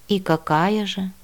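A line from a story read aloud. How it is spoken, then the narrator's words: Gloomy inquiry. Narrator (Russian): мрачно осведомился Тарло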